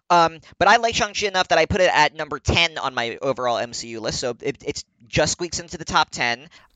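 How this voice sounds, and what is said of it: American accent. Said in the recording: “I pronounce everything in my American accent... I have the accent that I have”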